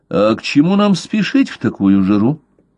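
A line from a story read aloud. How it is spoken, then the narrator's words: Unusually calm question. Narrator (Russian): спросил Блад, доктор говорил на редкость спокойно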